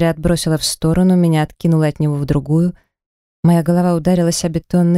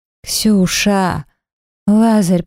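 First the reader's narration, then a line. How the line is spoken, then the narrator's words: Hoarse wheeze. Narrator (Russian): просипела я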